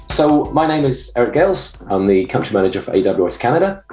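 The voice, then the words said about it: Foreign accent from far east. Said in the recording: “my accent is from out east, very far out east”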